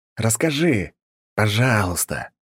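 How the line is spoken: Hiss. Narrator (Russian): прошипел я

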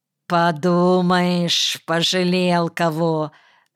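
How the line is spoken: Contemptuous drawl. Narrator (Russian): презрительно протянул я

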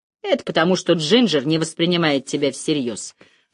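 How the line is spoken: Grumbled. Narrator (Russian): проворчала Ида

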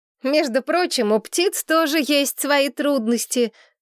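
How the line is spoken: Laughing remark. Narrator (Russian): заметила я, смеясь

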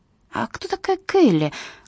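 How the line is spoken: Whispered question. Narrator (Russian): шепотом спросила Скарлетт

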